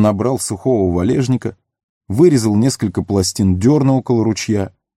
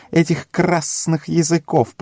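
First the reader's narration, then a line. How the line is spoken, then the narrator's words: Hissed. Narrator (Russian): прошипел Горлум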